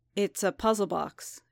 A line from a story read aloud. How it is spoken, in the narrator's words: Din said, as evenly as he could